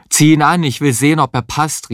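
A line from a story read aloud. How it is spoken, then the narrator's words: Called with mouth full. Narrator (German): rief Heinz mit vollem Mund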